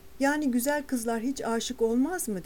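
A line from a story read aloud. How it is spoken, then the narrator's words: Plain. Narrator (Turkish): dedi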